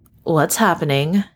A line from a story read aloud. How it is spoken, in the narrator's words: Bruce sighed